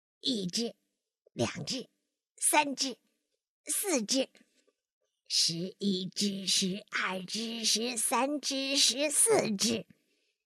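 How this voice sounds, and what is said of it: Quiet, hushed counting. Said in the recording (Chinese): “他怕吵醒小猪，就小声的数了起来”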